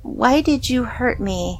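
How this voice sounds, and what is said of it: Awful whiny doll voice. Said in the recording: “she said in the awful, whiny voice.”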